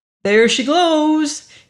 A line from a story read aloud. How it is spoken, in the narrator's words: cried suddenly and grinned